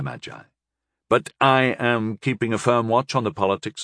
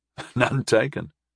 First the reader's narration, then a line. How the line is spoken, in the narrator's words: I chuckled